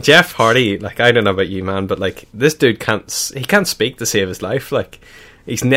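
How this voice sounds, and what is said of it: Usual voice. Nothing is said of it.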